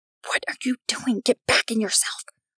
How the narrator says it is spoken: Andy whispered

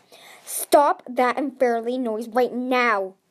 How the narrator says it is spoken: Burn roared

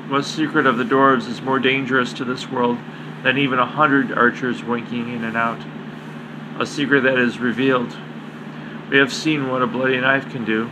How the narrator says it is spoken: Candide conveyed softly

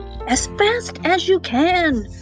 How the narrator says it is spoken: he shouted to the carpet

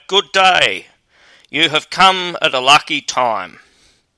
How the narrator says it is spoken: he cried

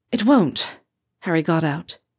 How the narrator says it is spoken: his voice sounding breathless

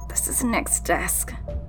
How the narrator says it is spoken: she muttered in slight pain

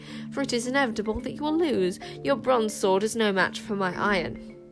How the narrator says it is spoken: spat Queen Sycorax as she fenced

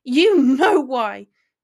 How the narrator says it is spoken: yelled, cheeks cherry flushed and eyes starting to water

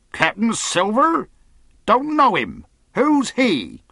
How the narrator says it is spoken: cried the captain

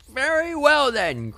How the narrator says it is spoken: cried the woman

